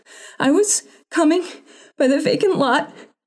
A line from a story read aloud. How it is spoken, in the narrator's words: she panted